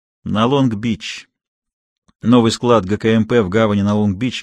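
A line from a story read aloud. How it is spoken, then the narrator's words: Plain. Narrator (Russian): говорит он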